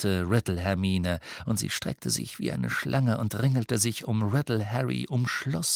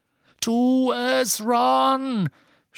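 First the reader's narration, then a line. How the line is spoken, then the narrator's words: Shouted. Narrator (German): schrie Harry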